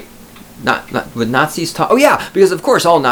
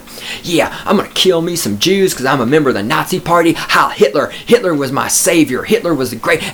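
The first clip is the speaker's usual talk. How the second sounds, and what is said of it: Put-on Southern American accent. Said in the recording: “all Nazis are Southerners. They would talk in a Southern accent.”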